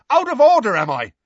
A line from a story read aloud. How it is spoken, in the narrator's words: shouted Seamus, who was going pale